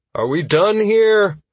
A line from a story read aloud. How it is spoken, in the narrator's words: I called out tiredly to the group